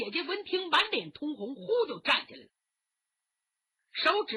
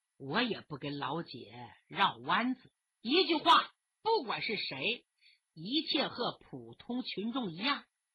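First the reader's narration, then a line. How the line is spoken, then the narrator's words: Smiling. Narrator (Chinese): 吴天祥笑眯眯地说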